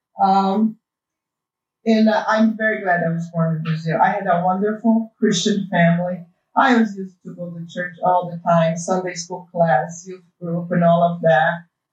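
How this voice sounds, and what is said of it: Brazilian accent in English. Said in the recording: “I was born in Brazil, and that's why you guys have to put up with my accent”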